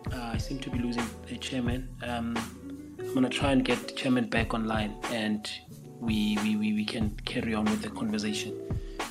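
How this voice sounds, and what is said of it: Voice sounds off, unwell. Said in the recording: “my voice might be a bit funny today, but it's because I have been feeling under the weather. I'm not 100%.”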